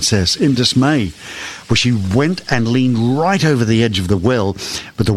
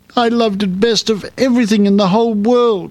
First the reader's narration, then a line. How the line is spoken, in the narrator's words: she sobbed